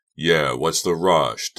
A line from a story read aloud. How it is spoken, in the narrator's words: Doug repeated sullenly